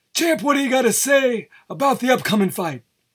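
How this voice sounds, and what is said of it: Imitates another person's voice. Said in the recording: “bad Howard Cosell impression ... I think I'm close on a Howard Cosell impression. I don't know how close ... I'm not that good at impressions”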